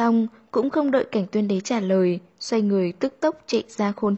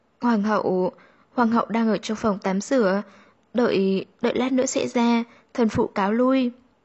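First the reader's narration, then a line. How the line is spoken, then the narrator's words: Stammering. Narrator (Vietnamese): nàng lắp bắp nói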